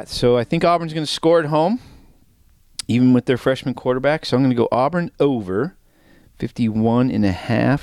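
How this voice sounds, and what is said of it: Out of breath, coughing. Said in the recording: “I'm coughing and out of breath”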